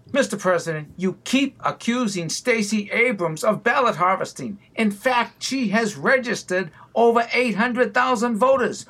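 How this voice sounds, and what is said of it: Boston accent. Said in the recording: “with the Boston accent”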